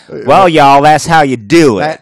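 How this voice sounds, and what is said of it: Put-on country accent. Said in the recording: “he'd say it with a country accent.”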